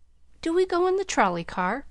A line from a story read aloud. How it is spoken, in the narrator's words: Pollyanna asked eagerly